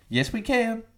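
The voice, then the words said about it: Barack Obama impression. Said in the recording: “Is it Barack Obama? ... Yeah, Barack Obama.”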